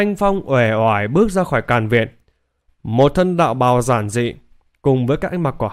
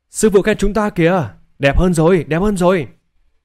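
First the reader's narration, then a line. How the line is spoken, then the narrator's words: Cheering. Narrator (Vietnamese): Hai người reo hò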